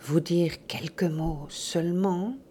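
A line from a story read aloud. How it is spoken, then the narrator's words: Murmured. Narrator (French): murmura-t-il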